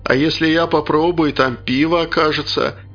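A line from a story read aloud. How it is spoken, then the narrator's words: Menacing question. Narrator (Russian): грозно вопросил Шуршурыч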